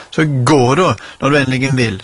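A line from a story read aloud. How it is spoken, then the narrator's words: Screamed. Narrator (Norwegian): skrek hun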